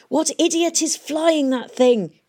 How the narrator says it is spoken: he shouted

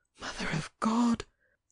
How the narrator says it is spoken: he faltered

